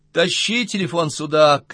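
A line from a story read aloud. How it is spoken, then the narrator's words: Shout. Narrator (Russian): крикнула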